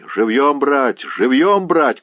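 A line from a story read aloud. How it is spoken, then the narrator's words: Shout. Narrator (Russian): крикнул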